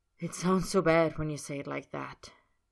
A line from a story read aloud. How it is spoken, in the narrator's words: Roy says on a sigh